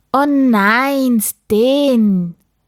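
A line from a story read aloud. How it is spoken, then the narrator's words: Father exclaiming in dismay. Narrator (German): rief Papa, als er die leeren Kartons sah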